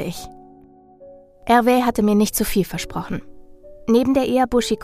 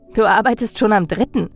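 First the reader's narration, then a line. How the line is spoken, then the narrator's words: Laughing. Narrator (German): lachte ich ihn an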